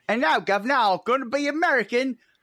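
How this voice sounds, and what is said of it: Exaggerated fake Cockney accent. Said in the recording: “I'm doing a Dick Van Dyke Cockney accent.”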